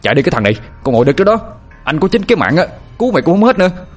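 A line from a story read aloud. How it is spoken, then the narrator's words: Strained shout. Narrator (Vietnamese): Anh vừa nặng cổ lại, vừa hét lên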